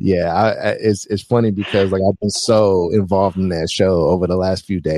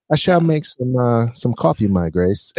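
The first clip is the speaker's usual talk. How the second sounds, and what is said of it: Put-on British accent. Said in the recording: “I might have a British accent just out of nowhere”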